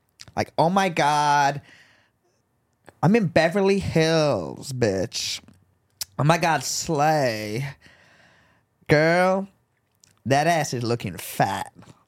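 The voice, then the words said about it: Put-on American Valley girl accent. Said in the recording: “Can you do an American accent? ... I can do like a Valley girl.”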